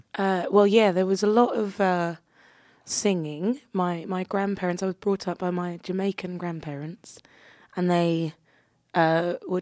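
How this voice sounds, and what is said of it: South London accent. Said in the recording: “you obviously have an accent ... I'm from London, South London originally.”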